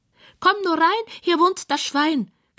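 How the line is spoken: Squealing. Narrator (German): quiekt es von der Couch

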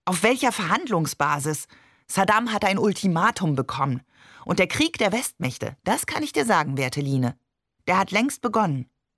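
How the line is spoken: Energetic speech. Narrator (German): sagte energisch

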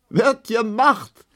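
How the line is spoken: Laughing. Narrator (German): lachte die lange Emma

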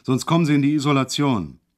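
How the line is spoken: Sudden roar. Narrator (German): brüllte er auf einmal los

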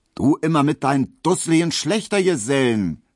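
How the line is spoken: Calling out. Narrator (German): rief

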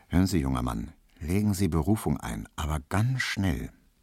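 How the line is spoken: Very quiet aside. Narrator (German): sagte so ganz leise zu ihm

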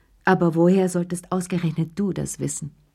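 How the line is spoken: Firm voice. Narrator (German): sagte sie mit fester Stimme

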